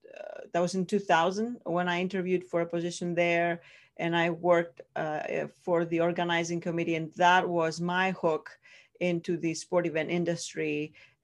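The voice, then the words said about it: Greek accent. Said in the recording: “I'm from Greece originally, that's where the accent comes from”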